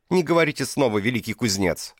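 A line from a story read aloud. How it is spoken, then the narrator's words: Barking. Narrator (Russian): рявкнула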